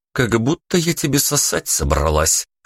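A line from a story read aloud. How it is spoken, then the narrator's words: Snort. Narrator (Russian): фыркнула блондинка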